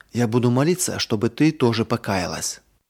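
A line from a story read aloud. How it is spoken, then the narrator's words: Whisper in ear. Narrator (Russian): Марина прошептала сестренке на ухо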